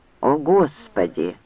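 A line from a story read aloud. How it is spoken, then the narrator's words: Muttering. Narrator (Russian): пробормотал Ранд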